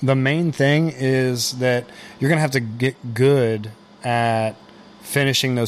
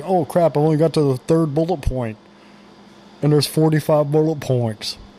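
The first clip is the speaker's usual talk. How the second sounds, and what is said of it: Imitates a student's voice. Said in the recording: “That's how I talk. That's my impression of students.”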